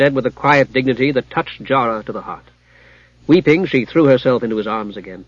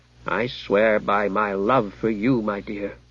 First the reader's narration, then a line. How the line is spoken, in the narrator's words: said Limbeck